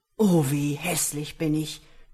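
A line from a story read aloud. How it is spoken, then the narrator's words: Groaning. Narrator (German): stöhnte auf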